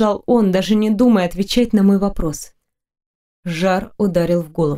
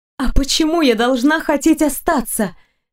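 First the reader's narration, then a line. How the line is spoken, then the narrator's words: Loud exclamation. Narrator (Russian): Воскликнула даже громче, чем хотела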